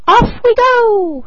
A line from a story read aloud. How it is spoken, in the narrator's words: cried he